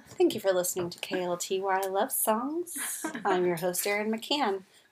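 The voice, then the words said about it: Smooth radio love-songs host voice. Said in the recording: “I sound like Delilah ... why are you doing your best KLTY voice?”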